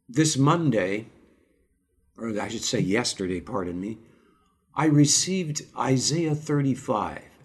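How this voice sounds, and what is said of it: Slightly rough, hoarse voice. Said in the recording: “I'm just getting over a cold, so pardon my voice if it sounds a bit rough and if there's an odd cough here and there.”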